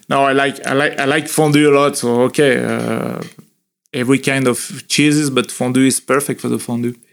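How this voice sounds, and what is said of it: French accent in English. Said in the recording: “My English French accent. ... It's not too bad.”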